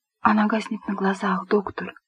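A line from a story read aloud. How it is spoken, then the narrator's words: Whispered. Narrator (Russian): прошептала сиделка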